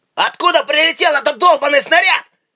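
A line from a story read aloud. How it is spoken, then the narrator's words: Shouted. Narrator (Russian): крикнул Рейнер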